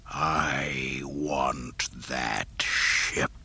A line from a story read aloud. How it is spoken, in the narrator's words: the Dark Lord hissed